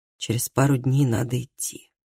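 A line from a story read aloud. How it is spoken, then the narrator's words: Quiet. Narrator (Russian): тихо сказал Калеб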